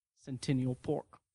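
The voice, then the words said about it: Imitates a film character's pronunciation. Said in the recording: “do my impression of the way that they say Centennial Park in it ... You nailed it.”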